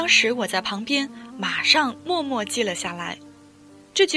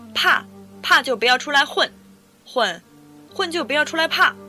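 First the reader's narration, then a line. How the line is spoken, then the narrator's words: Shout. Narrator (Chinese): 对面为首的光头大哥喊一声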